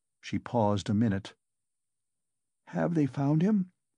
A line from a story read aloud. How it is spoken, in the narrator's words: she asked timidly